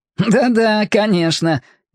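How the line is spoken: Laughing over the line. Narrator (Russian): Громов на другом конце связи рассмеялся

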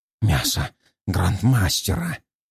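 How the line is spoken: Hoarse wheeze. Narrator (Russian): прохрипел Ратвер

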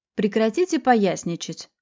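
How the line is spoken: Curt dry rebuke. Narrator (Russian): сухо одернула

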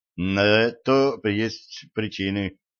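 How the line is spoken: Flat wooden voice. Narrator (Russian): деревянным голосом сказал Треверс

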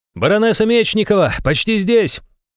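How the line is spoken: Shouted from below. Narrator (Russian): выкрикнул снизу Иван

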